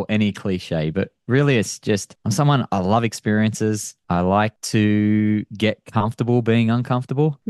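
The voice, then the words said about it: Australian accent. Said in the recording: “You have an accent ... Still working on the accent. I don't think I live in Australia. It's never going to go away. ... From Australia.”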